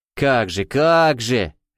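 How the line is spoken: Cheerful drawl. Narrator (Russian): жизнерадостно протянул Савелий

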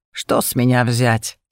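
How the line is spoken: Snorted. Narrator (Russian): Я хмыкнула

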